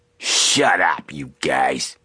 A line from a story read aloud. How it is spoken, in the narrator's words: Malloy growled